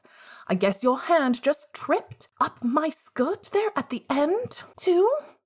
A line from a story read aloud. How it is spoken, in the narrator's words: She spat